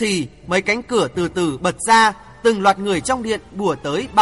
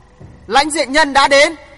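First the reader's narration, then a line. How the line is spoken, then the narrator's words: Crowd cheering. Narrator (Vietnamese): vang lên những tiếng reo hò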